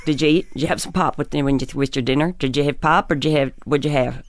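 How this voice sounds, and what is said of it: Put-on Pennsylvania accent, run-together sentences. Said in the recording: “I had a bit of a Pennsylvania accent ... You talk like that, and then all the sentences kind of run together ... It's a little bit Southern.”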